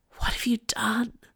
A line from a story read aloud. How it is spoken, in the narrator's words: whisper